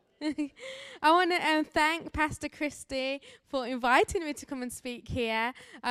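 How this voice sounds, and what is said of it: English Birmingham accent. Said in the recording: “I do have an accent, as I'm a missionary here from Birmingham, England”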